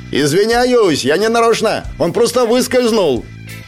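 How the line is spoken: Gloating shout. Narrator (Russian): я злорадно крикнул

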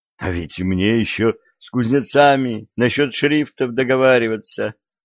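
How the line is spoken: Young man's groan. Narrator (Russian): простонал юноша

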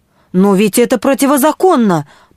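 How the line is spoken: Indignant protest. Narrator (Russian): попробовал возмущенно протестовать Уиксон

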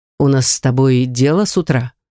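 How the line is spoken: Serious. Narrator (Russian): серьезным тоном заметил Ривет

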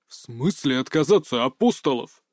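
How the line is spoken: Growl. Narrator (Russian): прорычал

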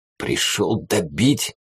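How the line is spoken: Hoarse question, then coughing. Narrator (Russian): хрипло спросил и закашлялся

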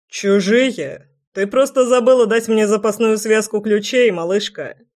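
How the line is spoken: Chuckling. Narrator (Russian): Хохотнул Неверский

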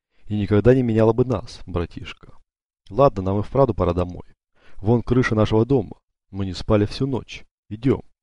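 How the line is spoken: Calm. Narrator (Russian): Федерико спокойно добавил

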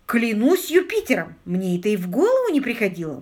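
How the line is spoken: Exclaimed. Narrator (Russian): воскликнул Питер

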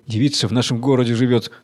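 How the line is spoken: Plain. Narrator (Russian): сказал он

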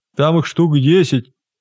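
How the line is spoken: Hoarse droning. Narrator (Russian): хрипло прогудела денщица

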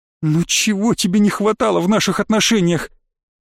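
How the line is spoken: Sobbing. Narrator (Russian): Катька всхлипнула

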